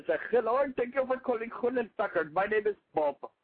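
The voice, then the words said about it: Put-on tech support caller accent. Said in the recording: “I went into that accent... I had a really bad tech support experience”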